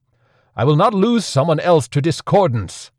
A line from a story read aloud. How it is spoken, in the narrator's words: Sel Taurus roared